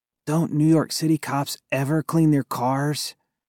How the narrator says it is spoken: Cass Williams mumbled

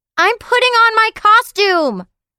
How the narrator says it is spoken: Leo shouted

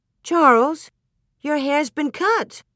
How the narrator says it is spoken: Ma exclaimed

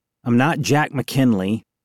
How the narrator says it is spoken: I said

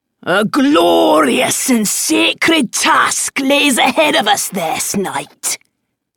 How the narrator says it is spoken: he bellowed

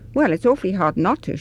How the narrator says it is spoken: she amended hastily, because of the look of surprise Anna now gave her

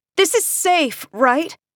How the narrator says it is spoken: yell up as we bump over rough ice

